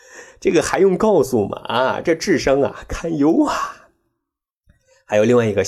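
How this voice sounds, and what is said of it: Usual voice. Nothing is said of it.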